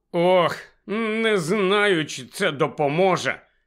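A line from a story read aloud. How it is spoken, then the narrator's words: Miserable mumble. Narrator (Ukrainian): ще нещаснішим тоном промимрив Невіл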